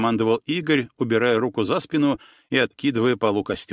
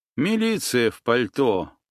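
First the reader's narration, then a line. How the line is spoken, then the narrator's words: Quiet, smiling. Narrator (Russian): улыбнулся тихо произнес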